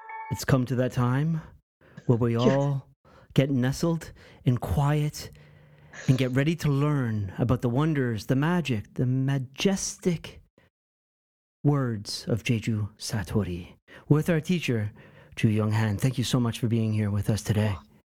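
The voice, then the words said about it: Dramatic hushed radio-host voice. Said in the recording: “This is my NPR voice... it's so dramatic. Yeah. It's very, very dramatic.”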